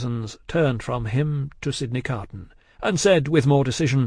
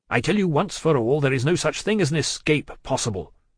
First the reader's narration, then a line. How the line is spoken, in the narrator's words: said the spy firmly